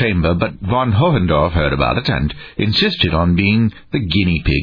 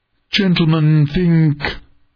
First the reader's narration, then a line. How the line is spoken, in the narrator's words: the Pulsinian pleaded